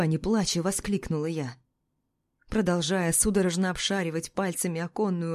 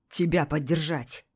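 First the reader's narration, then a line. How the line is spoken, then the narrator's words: Snapping retort. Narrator (Russian): огрызнулся Измайлов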